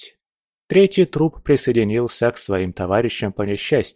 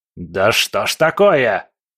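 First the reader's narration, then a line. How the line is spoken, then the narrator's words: Roaring. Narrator (Russian): взревел Легба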